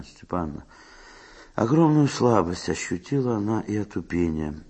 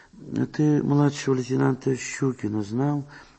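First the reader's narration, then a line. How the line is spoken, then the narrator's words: Barely audible question. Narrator (Russian): спросила Мария Степановна, чуть слышно, не оборачиваясь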